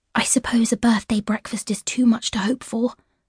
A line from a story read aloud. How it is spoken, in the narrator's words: Ivy whispered